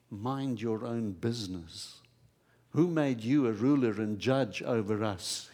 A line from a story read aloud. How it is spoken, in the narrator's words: he asked